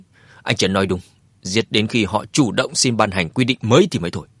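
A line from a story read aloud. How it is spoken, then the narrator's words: Stern. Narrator (Vietnamese): Anh ta nghiêm nghị nói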